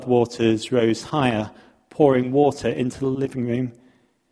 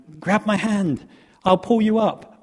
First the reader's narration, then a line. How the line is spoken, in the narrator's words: the rescue officer pleads with the man